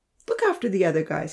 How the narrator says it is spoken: told kindly

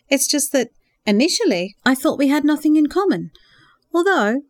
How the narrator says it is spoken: Jessica smiled warmly

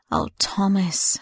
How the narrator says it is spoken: she sighed with great agony

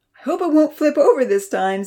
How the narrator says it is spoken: Santa laughed merrily

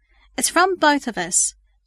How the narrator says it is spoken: Lindsay informed her excitedly

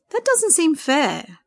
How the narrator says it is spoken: Sandra exclaimed

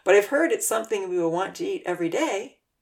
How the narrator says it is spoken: Uncle Louis laughed

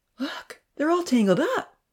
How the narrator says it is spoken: Ponzi exclaimed

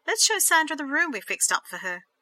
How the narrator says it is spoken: Michelle beamed happily

